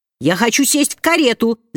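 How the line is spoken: Child shouting. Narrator (Russian): закричала маленькая разбойница

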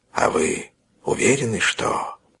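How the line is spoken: Whisper. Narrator (Russian): Следователь шепнул

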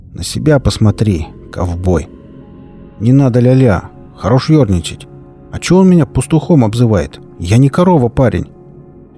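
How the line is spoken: Displeased grumble. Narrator (Russian): Рик недовольно пробурчал

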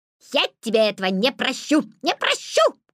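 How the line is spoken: Magpie's shout. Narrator (Russian): крикнула сорока

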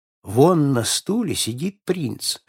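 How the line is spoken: Whispered. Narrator (Russian): шепнул сэр Шандо

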